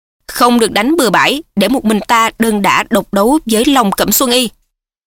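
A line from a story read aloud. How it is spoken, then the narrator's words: Loud shout. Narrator (Vietnamese): Mễ Đại Bưu quát lớn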